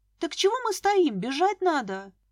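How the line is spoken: Exclaiming. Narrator (Russian): воскликнула я

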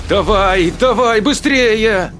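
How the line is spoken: Nearly shouting. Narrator (Russian): Едва не кричала рядом Сара

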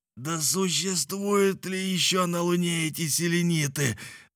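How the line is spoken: Drunken contrary growl. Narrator (Russian): зарычал Николь, которым под влиянием непонятного опьянения словно овладел дух противоречия

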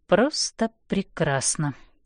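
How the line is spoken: Sarcastic mutter. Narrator (Russian): с сарказмом бормочу я

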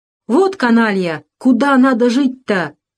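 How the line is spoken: Sudden loud blurt. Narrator (Russian): Вдруг громко выпалил Кузьма

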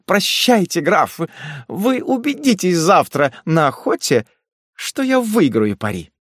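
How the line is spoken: Said while laughing. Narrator (Russian): сказала, не переставая смеяться

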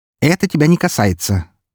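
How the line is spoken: Sharp. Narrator (Russian): резко произнесла его мать

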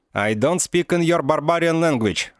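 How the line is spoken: Loud, into microphone. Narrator (Russian): громко сказал в микрофон

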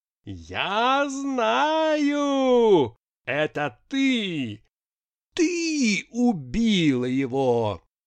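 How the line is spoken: Extreme frenzied scream. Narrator (Russian): И совсем уж запредельным голосом завопила

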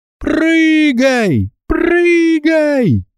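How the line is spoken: Screaming. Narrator (Russian): завопила она

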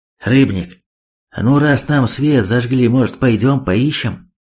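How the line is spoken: Sighing. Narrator (Russian): Ярослав вздохнул

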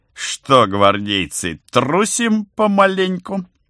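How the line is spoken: Full-lunged bark. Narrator (Russian): гаркнул во всю мощь легких

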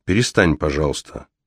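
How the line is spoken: Calm. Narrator (Russian): спокойно говорит Тереза

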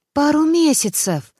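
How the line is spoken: Surprised exclamation. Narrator (Russian): Удивленно воскликнул Володя

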